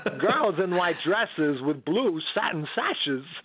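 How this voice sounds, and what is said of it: Imitates another person's singing voice. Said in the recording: “doing like different people that would love to sing but can't, like Christopher Walken doing”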